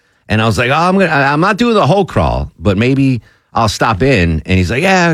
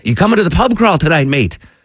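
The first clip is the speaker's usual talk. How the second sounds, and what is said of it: Imitated English accent. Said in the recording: “English Nick ... mate, I'm not going to do his accent.”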